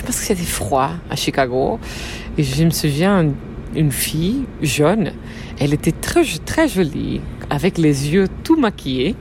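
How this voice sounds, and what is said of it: Charming foreign accent in French. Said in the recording (French): “elle a un accent qui est vraiment trop chouette”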